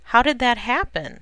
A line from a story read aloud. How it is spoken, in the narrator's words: Lois exclaimed in shock